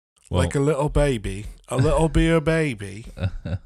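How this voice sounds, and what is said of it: Put-on English accent. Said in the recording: “God, I love an English accent. There's nothing better.”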